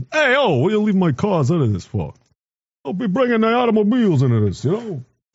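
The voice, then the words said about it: Put-on Italian accent. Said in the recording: “Italian? Sounds Italian.”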